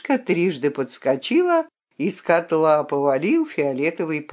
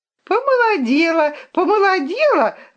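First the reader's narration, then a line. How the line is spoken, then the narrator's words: Joyful yelling. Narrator (Russian): радостно вопил Кляпон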